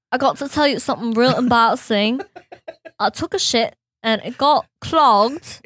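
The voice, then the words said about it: Put-on English accent. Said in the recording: “do it in an English accent.”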